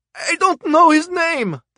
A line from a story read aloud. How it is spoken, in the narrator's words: the smuggler cried